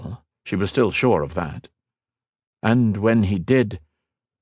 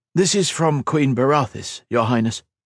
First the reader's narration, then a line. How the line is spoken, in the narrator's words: he said